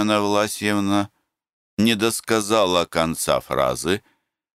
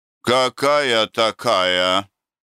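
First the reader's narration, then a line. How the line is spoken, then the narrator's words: Angry. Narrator (Russian): сердито заговорила Татьяна Власьевна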